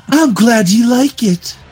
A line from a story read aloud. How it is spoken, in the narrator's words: Rita sighed